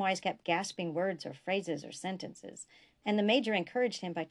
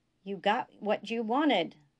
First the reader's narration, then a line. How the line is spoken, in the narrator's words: Biste shouted